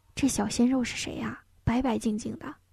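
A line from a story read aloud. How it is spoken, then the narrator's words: Excited whisper. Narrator (Chinese): 唐唐唐眼睛立刻放光，小声问江晨曦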